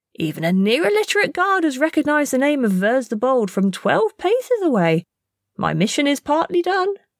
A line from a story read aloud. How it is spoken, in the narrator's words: chuckled